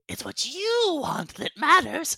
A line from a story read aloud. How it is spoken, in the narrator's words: She whimpers a little and says